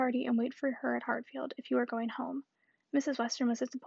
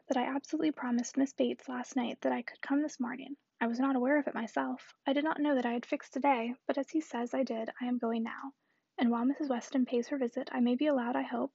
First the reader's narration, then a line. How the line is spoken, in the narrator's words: said Frank Churchill